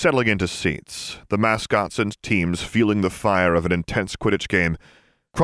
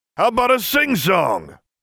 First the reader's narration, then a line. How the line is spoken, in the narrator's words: Sirius Shout asked